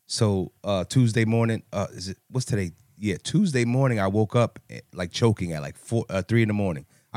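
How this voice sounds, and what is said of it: Hoarse, worn-out voice. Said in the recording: “in case you cannot tell, my voice is shot to hell”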